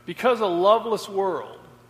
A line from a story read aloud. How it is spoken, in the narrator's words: said Jesus